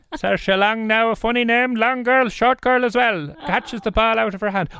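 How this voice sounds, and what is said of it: Squeaky put-on Cork accent. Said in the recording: “if you go really squeaky, you can do the accent a little bit easier in Cork... as if you're commentating on a guy match”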